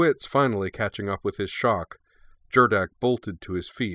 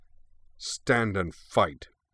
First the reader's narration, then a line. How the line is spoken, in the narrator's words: concluded in a cold snarl